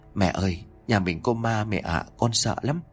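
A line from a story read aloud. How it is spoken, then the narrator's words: Child whispering fearfully. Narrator (Vietnamese): thằng cu đã kéo mẹ lại rồi thì thầm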